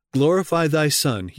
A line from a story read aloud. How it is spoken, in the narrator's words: pleaded